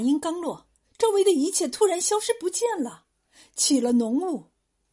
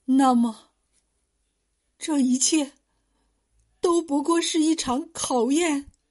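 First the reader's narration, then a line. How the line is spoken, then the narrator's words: Trembling voice. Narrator (Chinese): 声音抖颤的说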